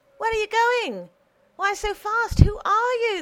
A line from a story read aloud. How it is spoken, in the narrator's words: they shouted to her